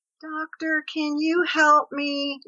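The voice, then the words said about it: Passive, meek pleading tone. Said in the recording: “hear the passivity in my voice”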